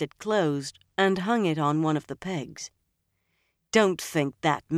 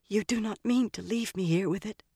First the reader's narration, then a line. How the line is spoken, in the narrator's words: Sita said in a whisper